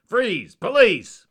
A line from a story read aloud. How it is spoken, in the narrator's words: shouted